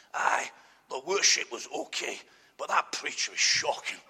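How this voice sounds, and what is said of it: Weak Scottish accent, Alan Hansen impression. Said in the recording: “here's an Alan Hansen in the life of the church ... That's Alan Hansen, you see ... it wasn't a very good Scots accent, but I had a go”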